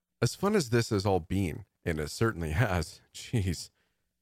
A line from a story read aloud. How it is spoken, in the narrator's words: Adrian laughed to himself